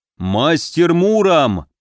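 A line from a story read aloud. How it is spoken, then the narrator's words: Booming voice. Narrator (Russian): прогудел воеводом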